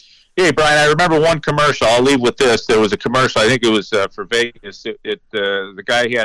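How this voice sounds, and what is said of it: Usual voice. Nothing is said of it.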